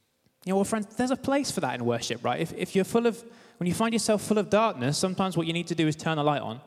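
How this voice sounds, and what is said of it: Usual voice. Nothing is said of it.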